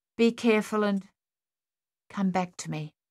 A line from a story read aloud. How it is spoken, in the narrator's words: she said softly